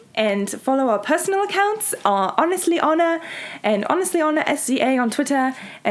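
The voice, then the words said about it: Put-on accent, fairly good. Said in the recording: “Help me get in my accent. ... Let's end this on our... With an accent. ... Your accent's so much better than mine.”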